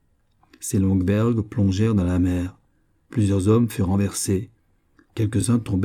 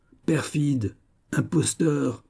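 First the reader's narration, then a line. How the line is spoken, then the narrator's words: Exclaiming. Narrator (French): s'écria-t-il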